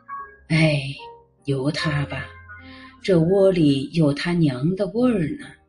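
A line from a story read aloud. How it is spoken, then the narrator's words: Old man sighing. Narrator (Chinese): 外公叹一口气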